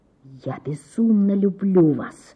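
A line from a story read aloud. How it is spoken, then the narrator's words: Close breathy whisper. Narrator (Russian): шептал он, дыша ей на щеку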